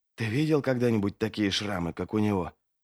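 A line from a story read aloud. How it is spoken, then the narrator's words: Whisper. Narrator (Russian): прошептал один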